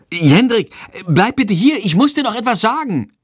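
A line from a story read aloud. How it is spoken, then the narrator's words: Calling out. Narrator (German): ruft sie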